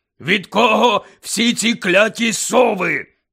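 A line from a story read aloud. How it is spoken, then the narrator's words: Growling. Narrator (Ukrainian): прогарчав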